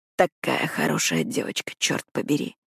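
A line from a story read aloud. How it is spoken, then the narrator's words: Hoarse rasp. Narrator (Russian): хрипит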